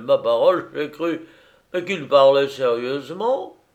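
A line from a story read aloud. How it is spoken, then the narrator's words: Exclaimed. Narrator (French): s'écria Mélenchon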